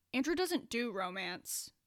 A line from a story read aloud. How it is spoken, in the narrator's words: Aaron muttered unhappily